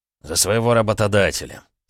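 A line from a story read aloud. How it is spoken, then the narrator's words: Calm reply. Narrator (Russian): спокойно ответил Олег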